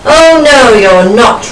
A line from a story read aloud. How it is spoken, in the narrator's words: roared the troll